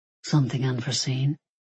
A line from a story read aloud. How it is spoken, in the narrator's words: he murmured